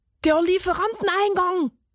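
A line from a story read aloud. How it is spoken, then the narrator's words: Excited call from behind. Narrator (German): rief die Käsereibe aufgeregt hinter ihnen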